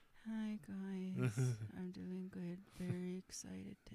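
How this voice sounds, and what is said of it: Flat monotone voice. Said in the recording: “monotone.”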